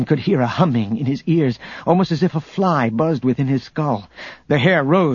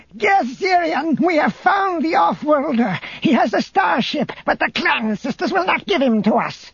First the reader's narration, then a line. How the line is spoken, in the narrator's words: Barissa shouted